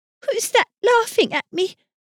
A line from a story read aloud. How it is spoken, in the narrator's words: said, trying to keep in her sobs and running too fast